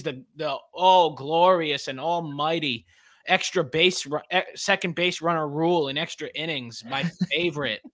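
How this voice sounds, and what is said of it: Sarcastic tone. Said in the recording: “hear the sarcasm in my voice”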